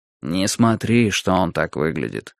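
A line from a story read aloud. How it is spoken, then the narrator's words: Quiet. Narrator (Russian): тихонько сказал мне Юрий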